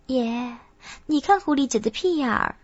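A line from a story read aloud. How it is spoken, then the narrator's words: Giggling, low voice. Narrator (Chinese): 月琴嘻嘻一笑，低声道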